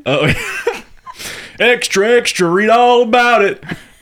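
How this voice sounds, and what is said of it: Put-on Southern American accent. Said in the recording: “That's a southern. ... That was a very southern accent.”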